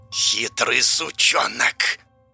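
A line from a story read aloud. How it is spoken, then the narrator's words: Hissing unseen creature. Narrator (Russian): Прошипело незримое нечто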